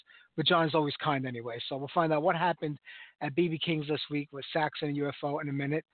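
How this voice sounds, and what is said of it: Slightly hoarse voice. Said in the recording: “A little hoarse from a tube being stuffed down my throat”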